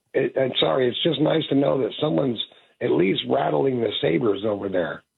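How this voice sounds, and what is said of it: Sick-sounding voice. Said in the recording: “Sorry about my voice. I'm out sick today.”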